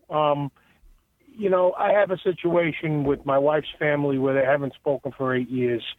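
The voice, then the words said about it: Long Island accent. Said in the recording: “Love that Long Island accent ... everybody thinks I talk funny”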